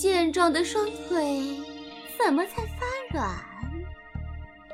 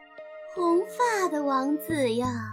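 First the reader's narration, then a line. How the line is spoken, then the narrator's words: Thin shrill voice near ear. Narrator (Chinese): 耳边有尖细的声音对他说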